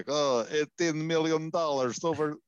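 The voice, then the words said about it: Attempted Kucherov accent impression. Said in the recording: “This is my Kucherov accent attempt.”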